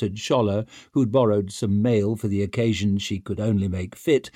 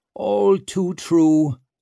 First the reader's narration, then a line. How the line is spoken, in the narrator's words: Clover nodded sadly